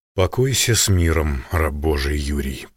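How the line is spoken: Undertone. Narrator (Russian): произнес вполголоса

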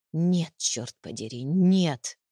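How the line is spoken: Choked, through gritted teeth. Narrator (Russian): процедил я сквозь зубы, чувствуя, как в горле встает ком

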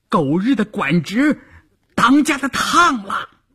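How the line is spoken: Someone shouting. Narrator (Chinese): 有人喊

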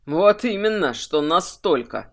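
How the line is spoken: Snorting. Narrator (Russian): хмыкнул Варрик Легрун

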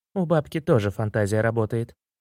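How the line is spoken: Sighing wife. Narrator (Russian): вздохнула жена

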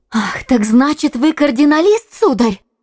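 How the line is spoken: Exclamation. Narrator (Russian): воскликнула она

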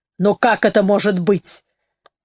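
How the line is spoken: Nervous exclamation. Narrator (Russian): нервно воскликнула Тара

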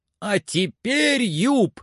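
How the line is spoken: Frantic excited shout. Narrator (Russian): закричал Легран вне себя от волнения

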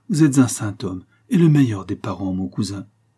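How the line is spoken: Exclaiming mother. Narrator (French): s'écria ma mère

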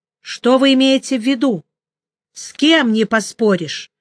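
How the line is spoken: Almost angry question. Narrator (Russian): почти сердито спросил

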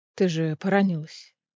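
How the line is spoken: Contrite mumble. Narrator (Russian): сокрашенно пробормотал

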